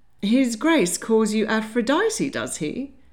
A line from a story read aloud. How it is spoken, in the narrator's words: laughed Mrs